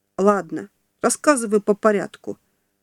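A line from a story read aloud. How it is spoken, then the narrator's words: Calm. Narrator (Russian): говорю я спокойно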